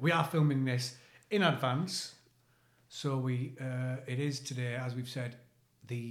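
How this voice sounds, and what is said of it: Usual voice. Nothing is said of it.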